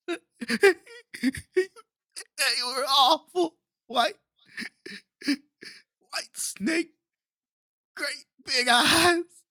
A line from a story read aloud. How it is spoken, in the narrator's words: Travis told Big D during one of his sobbing fits